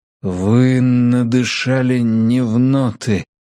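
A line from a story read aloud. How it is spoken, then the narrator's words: Forced out. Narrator (Russian): выдавил Мэтью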